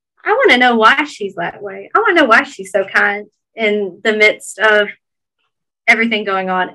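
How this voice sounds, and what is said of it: Thick Southern US accent. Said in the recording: “how deep my Southern accent came out on that ... my Georgia thick Southern accent is coming out”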